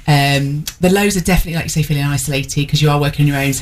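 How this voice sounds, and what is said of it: Mixed Essex and Northern English accent. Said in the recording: “I haven't got kind of a set accent, I'm a mix between Essex and kind of Newark Northern.”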